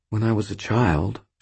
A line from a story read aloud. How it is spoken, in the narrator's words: she said, still speaking very quietly